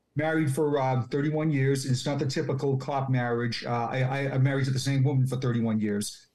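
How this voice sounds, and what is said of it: Massachusetts accent. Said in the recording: “talk the exact same way I do with my accent ... I still have my Massachusetts roots”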